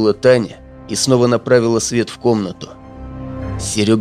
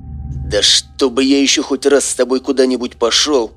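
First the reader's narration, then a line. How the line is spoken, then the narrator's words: Displeased growl. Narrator (Russian): прорычал недовольно он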